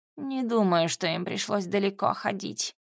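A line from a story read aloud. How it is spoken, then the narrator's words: Snort. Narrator (Russian): хмыкнул муха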